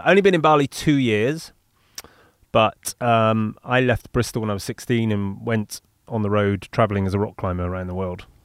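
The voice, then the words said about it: Bristolian English accent. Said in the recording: “my Bristolian accent confused a lot of people ... pronouncing my THs not as Fs”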